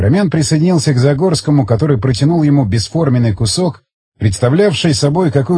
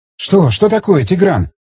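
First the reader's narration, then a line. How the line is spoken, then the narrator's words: Agitated speech. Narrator (Russian): взволнованно заговорила Рита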